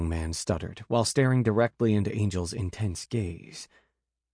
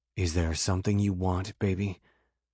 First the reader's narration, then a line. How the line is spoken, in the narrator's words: In a rough voice, Angel asked